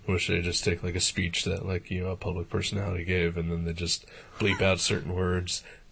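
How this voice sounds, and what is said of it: Low, hushed, sick-sounding voice. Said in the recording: “my voice is a little weird right now. I'm talking in low, hushed tones, not my usual self. Been sick, just now starting to feel better.”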